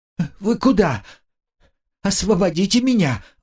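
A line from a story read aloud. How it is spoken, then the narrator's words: Pleading. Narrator (Russian): взмолился агент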